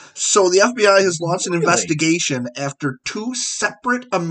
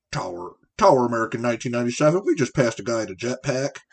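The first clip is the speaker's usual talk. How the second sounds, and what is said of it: Impression of an airline pilot. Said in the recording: “this is my best pilot impression”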